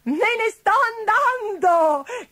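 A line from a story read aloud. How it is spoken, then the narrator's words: Shout with wild triumphant laugh. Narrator (Italian): gridò con una selvaggia risata di trionfo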